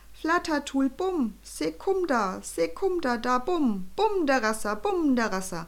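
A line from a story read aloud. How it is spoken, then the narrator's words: Tiny ruler calling blissfully. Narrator (German): Der sehr kleine Herrscher lächelte selig und rief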